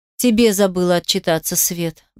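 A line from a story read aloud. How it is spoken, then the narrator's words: Sighing. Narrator (Russian): вздохнул я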